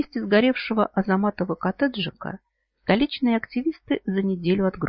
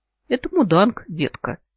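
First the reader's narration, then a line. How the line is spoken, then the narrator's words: Giggling. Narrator (Russian): хихикаю я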